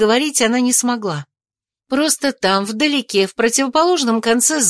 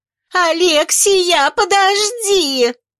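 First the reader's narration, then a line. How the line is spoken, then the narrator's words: Squealed. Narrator (Russian): Взвизгнула толстушка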